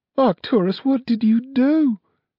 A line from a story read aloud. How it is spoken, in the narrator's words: cried his mother